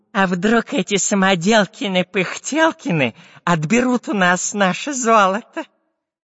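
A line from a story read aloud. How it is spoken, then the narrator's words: Nasal whine. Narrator (Russian): Прогнусавил шпион Дырка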